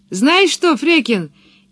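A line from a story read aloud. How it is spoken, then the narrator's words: Shouting from afar. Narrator (Russian): крикнула Пеппи со своего дерева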